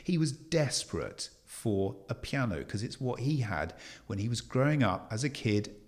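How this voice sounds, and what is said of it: Slightly posh English accent. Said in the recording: “I might sound like I've got a bit of a posh accent now”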